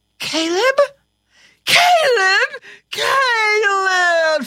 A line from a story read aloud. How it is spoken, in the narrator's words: she shrieked